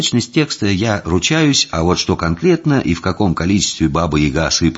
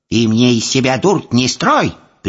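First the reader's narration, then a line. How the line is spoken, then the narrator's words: Sharp shout. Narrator (Russian): прикрикнула Яга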